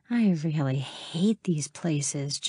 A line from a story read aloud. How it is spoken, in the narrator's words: Jenny muttered